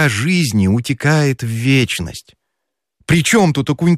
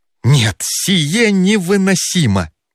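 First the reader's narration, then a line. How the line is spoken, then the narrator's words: Exclamation. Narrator (Russian): воскликнул Федяшев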